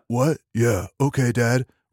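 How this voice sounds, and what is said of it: Kendall from Succession, surfer accent. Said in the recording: “He's basically Kendall from Succession, but with a surfer accent”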